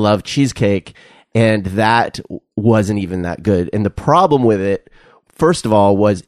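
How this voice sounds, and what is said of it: Usual voice. Nothing is said of it.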